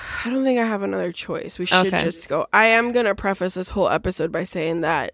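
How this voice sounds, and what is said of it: Nasal, congested voice. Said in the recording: “a sinus infection shat on my face ... I sound nasally. ... I was clearing my throat a lot”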